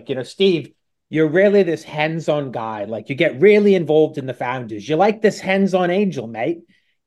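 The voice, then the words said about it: Poor put-on Australian accent. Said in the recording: “I do a really bad Australian accent”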